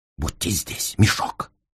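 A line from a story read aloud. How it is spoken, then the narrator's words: Whisper in the ear. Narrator (Russian): шепнул мне Холмс в самое ухо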